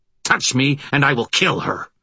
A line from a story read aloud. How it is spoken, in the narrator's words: he snarled